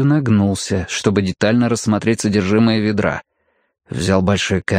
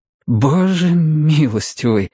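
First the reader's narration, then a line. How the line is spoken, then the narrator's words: Breathless, stifling nervous laughter. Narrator (Russian): выдохнул Мэтью, с трудом сдержав приступ нервного смеха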